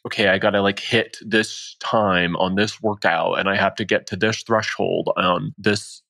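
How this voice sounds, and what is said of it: Imitates an obsessive training-focused person. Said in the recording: “accent ... I was trying to mimic someone who would be like very, you know, anal about the training piece ... there's a Ryan voice”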